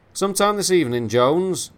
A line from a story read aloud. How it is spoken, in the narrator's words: the chief shouted at his subordinate